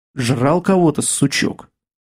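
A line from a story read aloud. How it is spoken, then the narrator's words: Gloomy remark. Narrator (Russian): мрачно заметил Кастет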